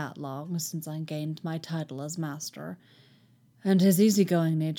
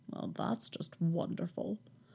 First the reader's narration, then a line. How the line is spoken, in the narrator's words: Kenobi mutters